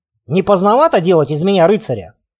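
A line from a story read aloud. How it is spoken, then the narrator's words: Snorting. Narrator (Russian): хмыкнул я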